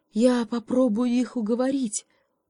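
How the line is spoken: Hopeful sigh. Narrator (Russian): вздохнул, не теряя надежды, заяц

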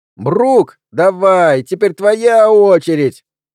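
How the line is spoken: High-pitched shout. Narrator (Russian): крикнул кто-то высоким голосом

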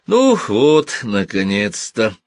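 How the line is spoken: Relieved sigh. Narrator (Russian): с облегчением вздохнул Йоковатари

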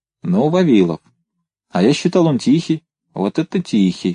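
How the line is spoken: Plain. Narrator (Russian): сказал Рысьев

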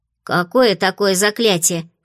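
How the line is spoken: Snorting. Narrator (Russian): фыркнула Фло

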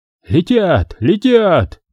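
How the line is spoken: Shouting. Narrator (Russian): закричал

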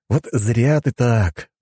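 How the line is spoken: Sigh. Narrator (Russian): вздохнул я

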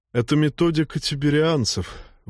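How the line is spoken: Forced out. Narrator (Russian): выдавил Глеб

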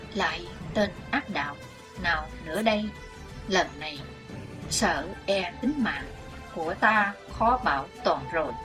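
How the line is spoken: Muttering. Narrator (Vietnamese): Chí Tôn mồm lẩm bẩm

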